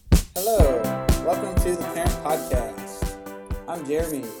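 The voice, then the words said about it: Announcer-style voice. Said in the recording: “That was like announcer voice.”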